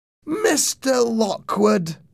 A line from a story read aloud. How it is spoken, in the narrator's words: she cried